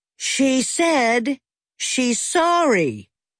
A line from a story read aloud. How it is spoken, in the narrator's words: said Ferris's mother in a very loud voice